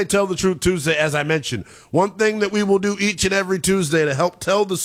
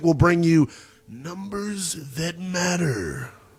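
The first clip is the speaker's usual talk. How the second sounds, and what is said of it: Booming announcer-style big voice. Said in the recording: “my big voice guy impersonation.”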